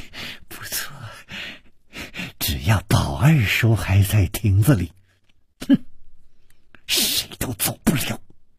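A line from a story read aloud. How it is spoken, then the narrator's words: Malicious smiling. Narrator (Chinese): 施少奶奶的嘴角也泛起了一丝恶意的微笑，说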